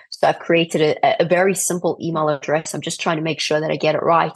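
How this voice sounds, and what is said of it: Unusual accent. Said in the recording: “I know I've got a very weird accent”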